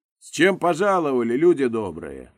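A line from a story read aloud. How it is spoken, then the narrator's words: Loud address to crowd. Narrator (Russian): громко обратился к народу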